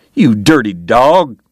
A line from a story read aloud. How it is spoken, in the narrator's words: James cried